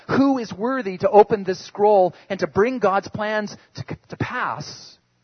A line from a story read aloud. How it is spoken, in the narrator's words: the angel called out